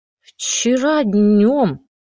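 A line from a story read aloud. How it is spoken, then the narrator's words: Trembling female voice. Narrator (Russian): дрожащим голосом сказала Катя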